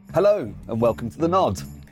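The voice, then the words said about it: Announcer-style radio voice. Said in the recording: “radio voice”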